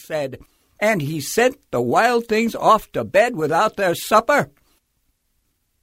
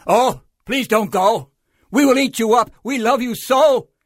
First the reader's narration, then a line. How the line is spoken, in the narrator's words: The wild things cried